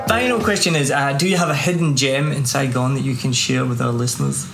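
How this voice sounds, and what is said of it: Scottish accent. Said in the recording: “It's my Scottish accent.”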